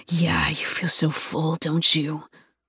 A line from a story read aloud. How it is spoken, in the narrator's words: His voice is rough and sexy